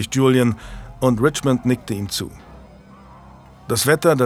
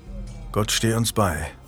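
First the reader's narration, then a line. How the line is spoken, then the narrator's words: Murmuring. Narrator (German): murmelte Jasper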